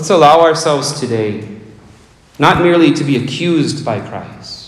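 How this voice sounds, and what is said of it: Usual voice. Nothing is said of it.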